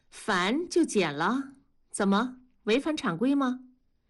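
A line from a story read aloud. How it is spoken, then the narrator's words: Cold voice. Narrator (Chinese): 李天骄也不回头，声音冷漠地说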